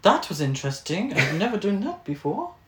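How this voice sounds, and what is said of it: Put-on British accent, slightly German. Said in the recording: “the most British accent I could do ... that wasn't German accent. It was British. ... It was a little German, wasn't it?”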